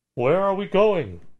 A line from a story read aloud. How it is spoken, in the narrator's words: Someone called out